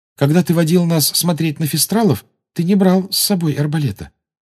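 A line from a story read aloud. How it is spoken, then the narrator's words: Timid. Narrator (Russian): робко сказала Гермиона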